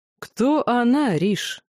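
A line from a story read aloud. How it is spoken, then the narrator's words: Mocking question. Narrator (Russian): насмешливо спросил лорд Элохар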